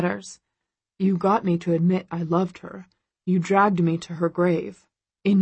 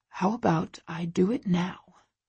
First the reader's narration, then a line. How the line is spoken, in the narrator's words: He whispers with a salacious smile